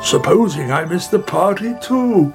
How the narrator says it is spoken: He cried

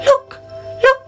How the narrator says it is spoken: he cried

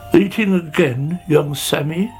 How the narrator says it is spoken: he sighed

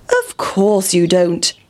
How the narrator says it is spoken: said the pig

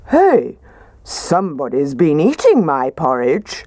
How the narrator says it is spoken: Daddy Bear said in his gruff voice

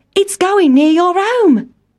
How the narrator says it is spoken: cried Town Mouse

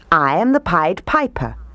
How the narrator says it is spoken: he said

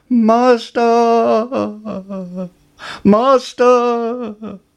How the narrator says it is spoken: the harp cried

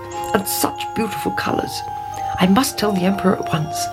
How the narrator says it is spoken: muttered

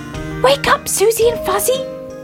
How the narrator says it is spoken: he cried

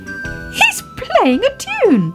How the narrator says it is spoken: cried Baby Ted

